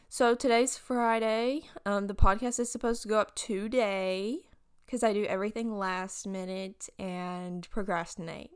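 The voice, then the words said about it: Groggy, congested just-woke-up voice. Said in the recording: “I woke up not too long ago. That's why my voice... like the 3 hours after I wake up, like my voice is like, hey... So if I sound like that... My nose has just been stopped up”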